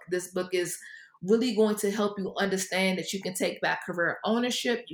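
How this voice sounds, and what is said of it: East Coast American accent. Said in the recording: “you have a nice East Coast accent”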